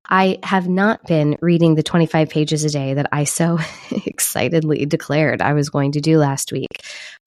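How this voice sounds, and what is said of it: Voice sounds sick. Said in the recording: “as you can hear in my voice, I'm a little bit sick”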